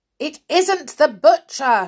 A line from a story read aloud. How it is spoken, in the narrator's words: shouted back Binky, getting cross